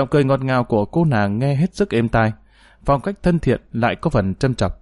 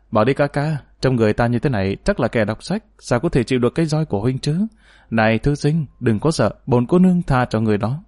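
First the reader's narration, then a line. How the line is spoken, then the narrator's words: Giggling. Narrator (Vietnamese): Bật cười khúc khích, nàng nói với gã kia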